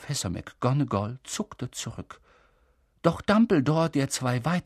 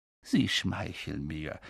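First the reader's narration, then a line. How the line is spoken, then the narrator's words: Quiet. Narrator (German): sagte Dumbledore leise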